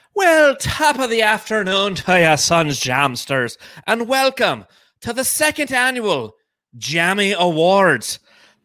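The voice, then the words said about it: Bad put-on Irish accent. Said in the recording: “that was a bad Irish accent”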